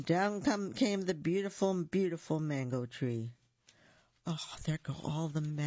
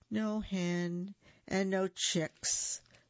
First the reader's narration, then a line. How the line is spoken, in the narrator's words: the gallito sighed